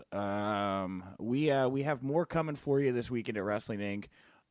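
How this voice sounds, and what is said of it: Low, strained, hoarse voice. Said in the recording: “fighting through what I think is a blown vocal cord or something like that ... in my low voice.”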